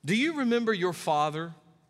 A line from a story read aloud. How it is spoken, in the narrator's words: asked the judge